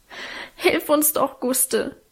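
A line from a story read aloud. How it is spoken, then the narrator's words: Sobbing. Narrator (German): schluchzte Alwine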